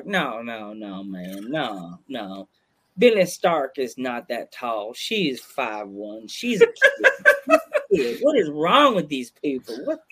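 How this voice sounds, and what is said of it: Put-on Southern accent. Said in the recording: “my voice immediately went Southern accent, went Tom Clark.”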